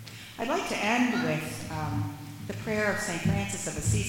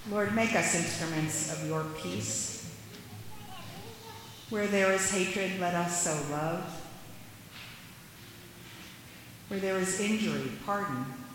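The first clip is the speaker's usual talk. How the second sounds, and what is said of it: Slow reading with pauses. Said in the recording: “read it slowly ... I'm going to read it slowly ... take a beat after each sentence”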